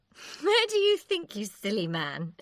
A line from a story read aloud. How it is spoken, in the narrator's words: she said with a laugh